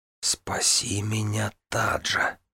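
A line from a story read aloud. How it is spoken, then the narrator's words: Whisper. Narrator (Russian): прошептал он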